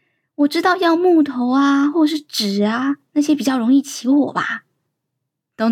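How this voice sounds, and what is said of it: Usual voice. Nothing is said of it.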